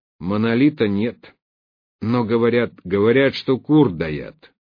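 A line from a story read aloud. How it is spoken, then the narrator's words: Angry, curt. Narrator (Russian): зло отрезал я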